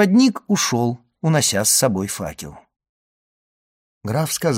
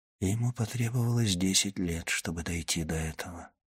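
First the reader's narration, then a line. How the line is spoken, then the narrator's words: Whispered. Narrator (Russian): прошептал граф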